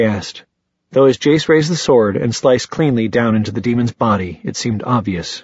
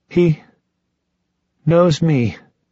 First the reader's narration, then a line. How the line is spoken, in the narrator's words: Jonathan breathed